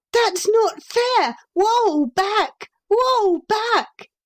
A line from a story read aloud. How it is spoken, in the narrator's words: he shouted to the White Horse